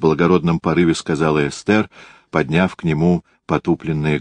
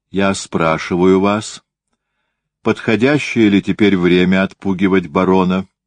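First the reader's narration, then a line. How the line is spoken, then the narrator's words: Calm. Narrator (Russian): сказал он спокойно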